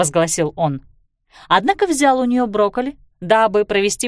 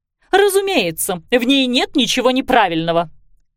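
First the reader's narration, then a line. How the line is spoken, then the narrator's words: Barked sharply. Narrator (Russian): рявкнула на него мисс Пик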